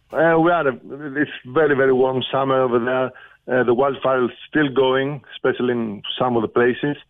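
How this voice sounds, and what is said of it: Greek accent. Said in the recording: “that's a Greek accent, isn't it? ... Yes, that's a Greek accent.”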